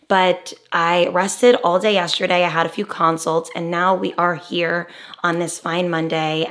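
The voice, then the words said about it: Slightly raspy voice. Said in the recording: “my voice is a little raspy today”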